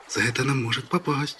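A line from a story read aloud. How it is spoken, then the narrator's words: Frightened. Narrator (Russian): сказала испуганно другая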